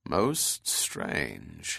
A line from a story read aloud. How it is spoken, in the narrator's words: said slowly